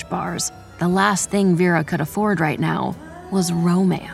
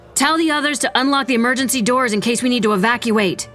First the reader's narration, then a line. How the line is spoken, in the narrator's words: Vera shouted